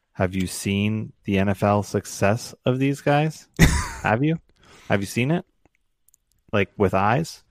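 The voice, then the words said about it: Sarcastic mocking delivery. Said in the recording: “Are you being sarcastic? ... Yeah, I'm being sarcastic.”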